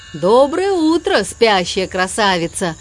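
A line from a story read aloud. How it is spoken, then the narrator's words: Booming drone. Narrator (Russian): прогудел МакКуину желтый тягач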